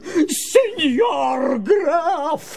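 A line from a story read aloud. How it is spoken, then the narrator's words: Screaming in a strange voice. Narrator (Russian): завопил Помидор не своим голосом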